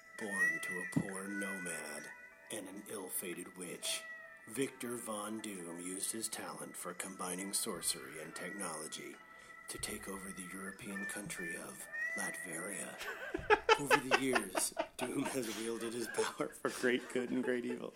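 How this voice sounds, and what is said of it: Deep announcer-style radio voice. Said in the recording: “I got that radio voice, son.”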